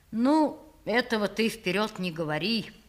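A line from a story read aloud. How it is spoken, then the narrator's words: Thoughtful, speaking as to adult. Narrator (Russian): сказал странный человек задумчиво, обращаясь ко мне таким тоном, точно он говорил со взрослым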